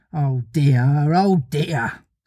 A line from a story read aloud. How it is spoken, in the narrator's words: sighed Wendy